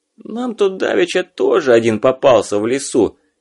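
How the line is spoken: Hoarse man's voice. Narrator (Russian): сипло сказал мужик с бычьей шеей

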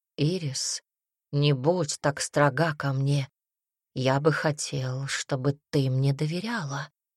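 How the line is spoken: Soft gentle voice. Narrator (Russian): произнес Гассерт мягко

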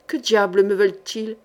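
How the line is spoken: Grumbling. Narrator (French): grogna Brancaillon

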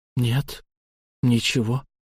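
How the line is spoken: Hoarse faltering voice. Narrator (Russian): севшим голосом сказала она

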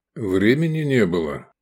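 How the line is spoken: Calm explanation. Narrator (Russian): спокойно объяснил Лобанов

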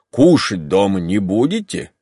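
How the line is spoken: Plain. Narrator (Russian): сказал провожавший Матвей

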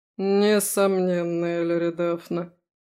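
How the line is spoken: Drawling. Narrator (Russian): протянул Дариан

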